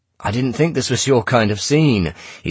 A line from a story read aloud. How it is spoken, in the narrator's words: he said loudly